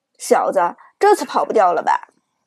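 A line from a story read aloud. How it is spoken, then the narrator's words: Cold sneer. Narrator (Chinese): 张豪冷冷一笑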